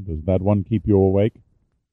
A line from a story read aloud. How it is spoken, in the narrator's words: asked Pitt evenly